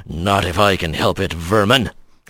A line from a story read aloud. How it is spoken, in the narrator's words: growled